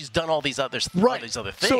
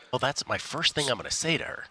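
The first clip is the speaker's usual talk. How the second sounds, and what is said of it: Whispering. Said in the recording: “I don't know why I'm whispering”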